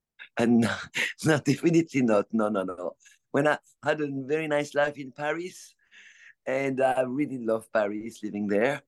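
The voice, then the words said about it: French accent. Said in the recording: “you were born in France, we can tell by your accent.”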